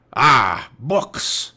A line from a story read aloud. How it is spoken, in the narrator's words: growled Cap'n Bones